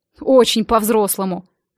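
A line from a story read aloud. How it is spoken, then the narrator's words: Snort. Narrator (Russian): фыркнул он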